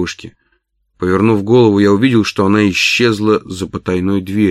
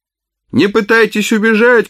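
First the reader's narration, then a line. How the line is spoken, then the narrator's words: Shout. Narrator (Russian): крикнул я ей вслед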